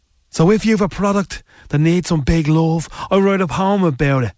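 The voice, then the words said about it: Dublin accent. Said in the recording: “In my accent, it's dub... I am the voice of Dublin”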